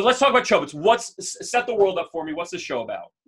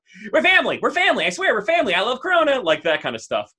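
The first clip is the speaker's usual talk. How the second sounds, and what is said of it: Imitates another person's voice. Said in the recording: “That's my best Vin Diesel impression”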